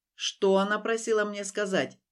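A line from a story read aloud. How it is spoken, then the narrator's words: Growling. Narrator (Russian): прорычал дракон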